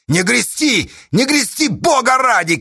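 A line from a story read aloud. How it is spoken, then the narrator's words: Shouting through trumpet. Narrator (Russian): кричал он в трубу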